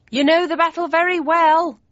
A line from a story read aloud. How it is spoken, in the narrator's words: I shouted above the noise